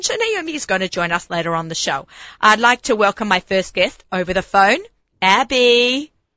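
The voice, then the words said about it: Husky, hoarse voice. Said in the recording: “I'm a little husky because I had laryngitis”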